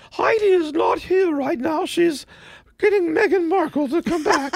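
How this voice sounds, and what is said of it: Impression of the Queen. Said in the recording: “you got to be like the queen ... that was my queen”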